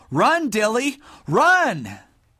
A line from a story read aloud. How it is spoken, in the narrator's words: he yelled